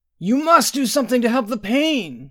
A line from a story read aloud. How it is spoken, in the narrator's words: cried, baring her teeth